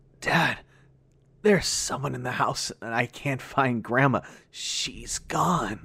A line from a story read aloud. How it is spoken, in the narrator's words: Through a barely comprehensible voice, I managed to croak